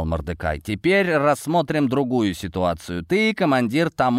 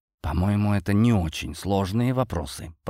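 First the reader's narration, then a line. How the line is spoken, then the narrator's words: Whispered. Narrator (Russian): прошептала Ди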